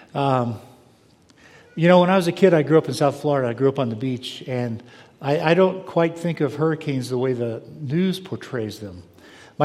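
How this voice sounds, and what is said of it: Voice noticeably strained and impaired. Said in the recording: “pardon my voice, I'm an asthmatic, and so all the wood smoke is making life fun for me”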